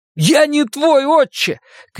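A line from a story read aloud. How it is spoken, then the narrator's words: Shouting. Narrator (Russian): крикнул я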